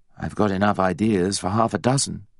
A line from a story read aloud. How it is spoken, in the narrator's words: Harry said